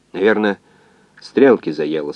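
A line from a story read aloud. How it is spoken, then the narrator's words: Calm. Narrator (Russian): спокойно сказал координатор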